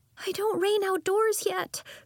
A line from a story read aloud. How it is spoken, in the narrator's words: she wailed